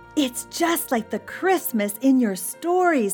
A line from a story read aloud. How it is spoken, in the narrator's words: he cried